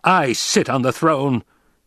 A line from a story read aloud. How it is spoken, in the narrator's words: he barked